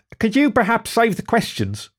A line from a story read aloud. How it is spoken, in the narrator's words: insisted Den, her teeth gritted in sharply focused effort